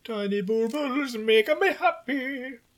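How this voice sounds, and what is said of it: Attempted German accent. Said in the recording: “I was trying to go for a German accent there, but it didn't really work out.”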